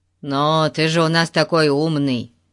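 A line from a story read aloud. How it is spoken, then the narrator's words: Angry mutter. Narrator (Russian): сердито пробурчал Ларри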